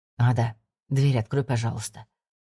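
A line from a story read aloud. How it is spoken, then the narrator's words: Quiet request. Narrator (Russian): тихо попросил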